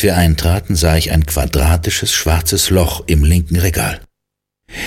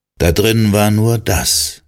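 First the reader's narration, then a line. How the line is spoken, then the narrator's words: Calm explanation. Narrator (German): erklärte Cal ruhig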